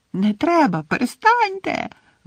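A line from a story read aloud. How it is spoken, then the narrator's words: Whiny echoing shriek. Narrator (Ukrainian): верещала плаксива Мірта, і її голос відлунював в обкладеному кахлями приміщенні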